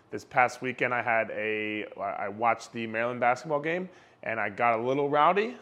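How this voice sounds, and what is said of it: Slightly raspy voice. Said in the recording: “my voice is a little raspy ... if my voice cracks, or if it goes down”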